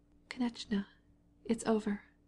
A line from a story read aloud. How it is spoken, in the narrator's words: his wife's living, loving, happy voice whispered